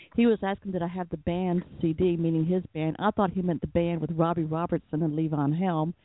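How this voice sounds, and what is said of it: Southern American accent. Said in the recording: “my southern accent ... in Atlanta, we just sound a little different”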